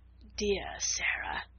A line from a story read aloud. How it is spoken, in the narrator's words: murmured Lavinia